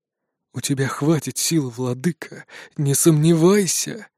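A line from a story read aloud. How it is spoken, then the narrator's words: Whisper. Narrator (Russian): шепот в моей голове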